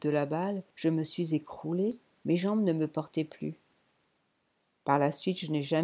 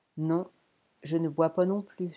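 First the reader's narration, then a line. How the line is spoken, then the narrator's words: Dying man sighing. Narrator (French): soupira le moribond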